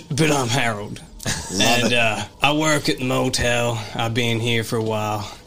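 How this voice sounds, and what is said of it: Slightly drunk character voice. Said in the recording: “Is he slightly intoxicated still? ... Because he's a little bit intoxicated. ... A little drunk”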